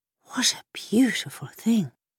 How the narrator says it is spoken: breathed the boy

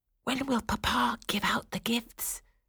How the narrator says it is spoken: Fritz whispered to Clara

